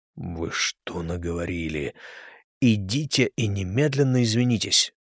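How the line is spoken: Hissing. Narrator (Russian): зашипел Жуковский

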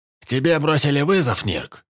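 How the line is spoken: Snort. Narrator (Russian): хмыкнул Карн

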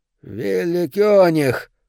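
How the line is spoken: Breathy exhale. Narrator (Russian): выдохнул

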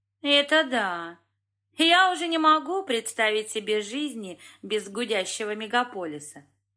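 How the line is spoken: Laughing. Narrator (Russian): рассмеялась

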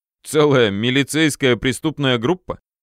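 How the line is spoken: Chuckling. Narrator (Russian): хохотнул Горохов

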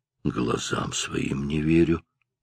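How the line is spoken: Whisper. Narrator (Russian): прошептал он

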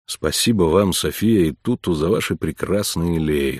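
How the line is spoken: Plain. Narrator (Russian): сказал Майк

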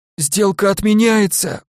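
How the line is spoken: Wheezing, spitting blood. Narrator (Russian): просипел Колька, выплевывая кровь изо рта

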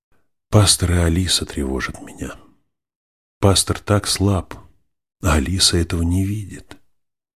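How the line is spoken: Quiet. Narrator (Russian): Наль тихо прибавила

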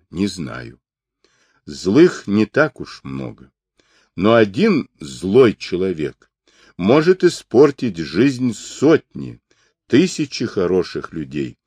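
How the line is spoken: Plain. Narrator (Russian): сказал Теп-Тенгри

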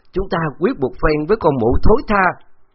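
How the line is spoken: Reluctant shout. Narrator (Vietnamese): hai tên thủ hạ được lệnh miễn cưỡng thét

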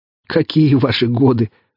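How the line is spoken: Short laugh. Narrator (Russian): хохотнул собеседник

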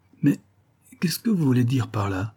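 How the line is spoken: Stammered. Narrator (French): balbutia-t-elle

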